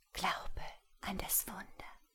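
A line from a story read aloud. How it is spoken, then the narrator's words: Barely audible whisper. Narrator (German): flüsterte sie kaum hörbar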